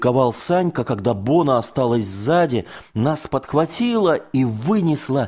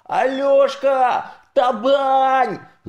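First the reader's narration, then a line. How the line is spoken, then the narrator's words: Yelling. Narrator (Russian): заорал Санька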